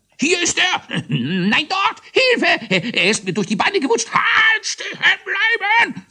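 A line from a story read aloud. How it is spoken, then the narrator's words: Confused overlapping shouts. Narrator (German): So schrie es durcheinander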